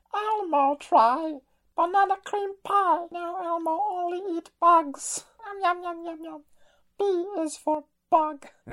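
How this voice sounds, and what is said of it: Elmo character voice. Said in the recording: “your Elmo impression”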